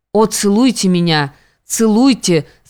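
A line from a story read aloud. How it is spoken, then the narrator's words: Through teeth, trembling. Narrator (Russian): сквозь зубы говорит она и вся дрожит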